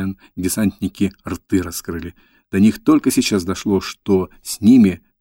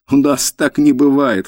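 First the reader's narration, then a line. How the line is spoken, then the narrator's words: Laughing. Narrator (Russian): хохотали они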